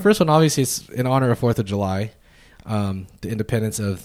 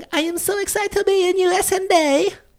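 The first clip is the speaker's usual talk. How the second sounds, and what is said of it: Borat character voice impression. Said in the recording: “That's Borat... That's a pretty good impression”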